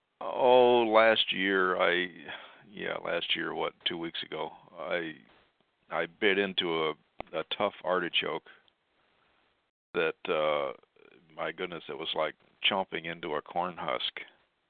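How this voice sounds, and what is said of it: Slightly slurred speech. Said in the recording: “my voice is probably going to be a little slurred tonight. I've got a really sore left jaw”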